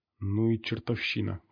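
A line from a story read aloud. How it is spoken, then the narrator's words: Muttered. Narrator (Russian): пробормотал пригоршня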